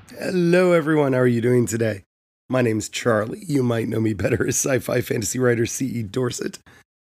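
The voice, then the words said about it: Crackly, hoarse voice. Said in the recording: “sorry about my voice... hoping my voice would not be as poppy crackly”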